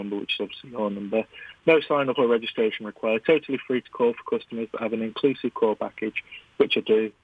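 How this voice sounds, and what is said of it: British accent. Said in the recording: “our listeners are going to love the accent ... A British accent sort of thing”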